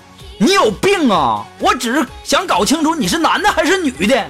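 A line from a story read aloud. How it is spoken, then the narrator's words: Startled, then shouting. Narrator (Chinese): 那男的一愣啊，回过神来就吼着苏木说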